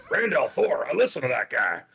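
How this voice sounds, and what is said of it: Western accent impression. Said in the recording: “he's a Western. He's got a Western accent.”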